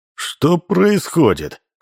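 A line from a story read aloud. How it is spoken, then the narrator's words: Menacing question. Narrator (Russian): спросил он грозно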